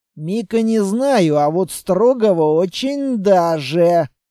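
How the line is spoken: Drawling. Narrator (Russian): протянул квартник

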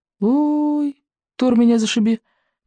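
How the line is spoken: Embarrassed squeak. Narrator (Russian): пискнул рыбьенок, стремительно заливаясь малиновой краской

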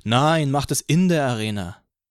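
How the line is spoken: Girl calling out. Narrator (German): rief ein Mädchen

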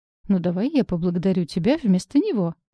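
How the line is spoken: Laughing. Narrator (Russian): рассмеялась

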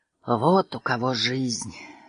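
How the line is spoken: Sighing. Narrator (Russian): вздохнул Роджер

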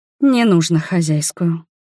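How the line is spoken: Weary interruption. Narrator (Russian): устало остановила

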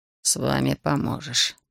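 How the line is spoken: Muttered under breath, in Latvian. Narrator (Russian): переходя на латышский, пробурчал себе под нос Граузе

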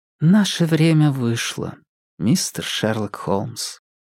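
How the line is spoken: Quiet speech. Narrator (Russian): тихо произнесла

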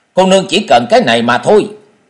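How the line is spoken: Angry loud shout. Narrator (Vietnamese): La Hồng Huynh nổi giận, quát to

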